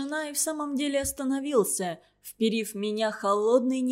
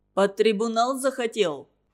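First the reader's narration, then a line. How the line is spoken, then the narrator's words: Threatening growl, slightly softened. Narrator (Russian): Угрожающе прорычал он, однако сбавив первоначальный напор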